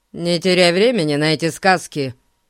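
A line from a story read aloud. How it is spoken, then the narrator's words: Grim, curt. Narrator (Russian): мрачно бросил водитель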